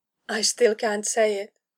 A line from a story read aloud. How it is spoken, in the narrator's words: she mumbled